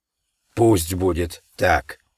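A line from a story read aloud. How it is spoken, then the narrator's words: Hoarse wheezing chorus. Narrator (Russian): захрипели они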